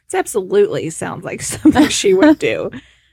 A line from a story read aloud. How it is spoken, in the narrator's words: laughed and said